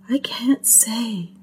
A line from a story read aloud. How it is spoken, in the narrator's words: she whispered